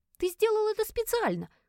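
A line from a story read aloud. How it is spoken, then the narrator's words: Exclamation. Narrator (Russian): воскликнула я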